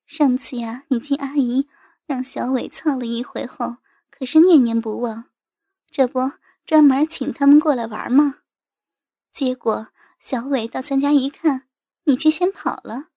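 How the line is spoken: Half-smiling reply. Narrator (Chinese): 我妈似笑非笑地答道

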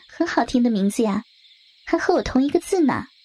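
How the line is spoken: Smiling. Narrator (Chinese): 夏月笑了笑又说道

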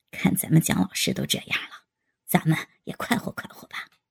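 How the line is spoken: Soft voice. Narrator (Chinese): 宋小艺轻声道

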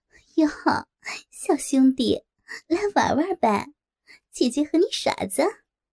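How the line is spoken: Flirtatious laughing. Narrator (Chinese): 梅姐浪笑着对他说

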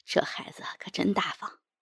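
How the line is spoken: Stunned murmur. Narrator (Chinese): 冯主任被我说得目瞪口呆，喃喃道

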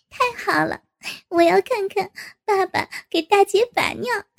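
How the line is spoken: Laughing. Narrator (Chinese): 赵颖哈哈地笑了起来

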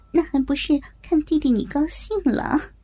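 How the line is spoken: Flirtatious laugh. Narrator (Chinese): 我浪浪的一笑

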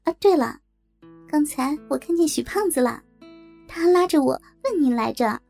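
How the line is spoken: Mischievous grin. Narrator (Chinese): 小月仿佛想起了什么似的，坏笑着说

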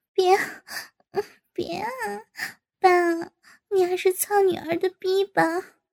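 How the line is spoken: Hasty, laughing. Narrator (Chinese): 高杰忙笑道

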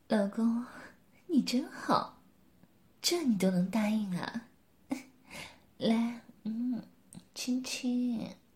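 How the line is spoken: Soft. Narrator (Chinese): 柳丽艳轻声说

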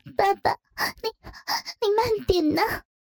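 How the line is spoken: Trembling voice. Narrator (Chinese): 雪倩颤声道

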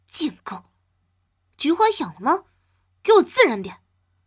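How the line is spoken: Angry. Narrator (Chinese): 怒道

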